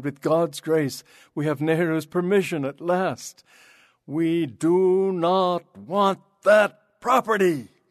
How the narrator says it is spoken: shouted

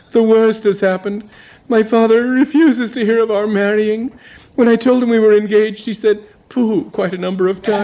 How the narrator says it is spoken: said the girl, brokenly

